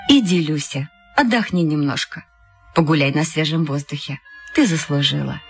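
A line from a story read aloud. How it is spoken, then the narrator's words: Gentle, affectionate. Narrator (Russian): Она ласково сказала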